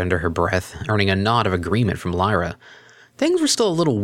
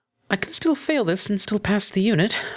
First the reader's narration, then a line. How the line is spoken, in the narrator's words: Octavia squeaked